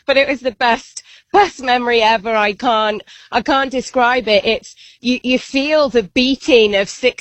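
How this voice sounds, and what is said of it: Hoarse, strained, fading voice. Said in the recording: “losing my voice,”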